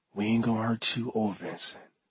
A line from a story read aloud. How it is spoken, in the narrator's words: I whispered to him